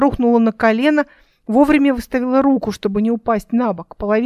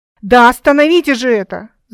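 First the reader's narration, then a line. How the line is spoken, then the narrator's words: Growl. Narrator (Russian): зарычала Эл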